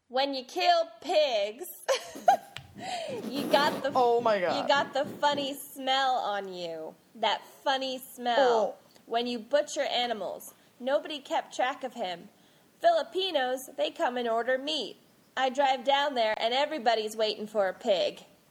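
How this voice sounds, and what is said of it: Put-on American Southern accent. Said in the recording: “we're just going to make this southern”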